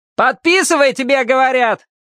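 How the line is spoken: Yelled. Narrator (Russian): штабс-прапорщик заорал

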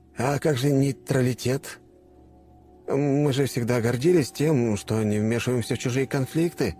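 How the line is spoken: Timid question. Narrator (Russian): робко спросил один из советников, мужчина в очках

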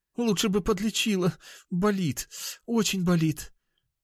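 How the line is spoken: Whimpering, hurt. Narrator (Russian): прохныкала раненая

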